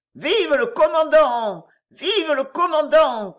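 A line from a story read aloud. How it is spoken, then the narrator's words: Crowd cheering together. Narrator (French): cria toute la réunion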